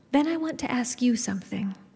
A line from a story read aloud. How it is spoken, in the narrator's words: Elizabeth says